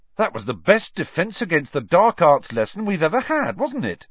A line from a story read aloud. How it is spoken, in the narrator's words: said Ron excitedly